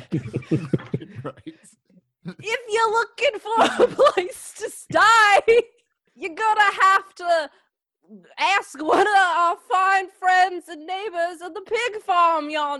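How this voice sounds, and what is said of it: Put-on accent mixing two accents. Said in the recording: “What accent is this becoming? It's like a combination of the two.”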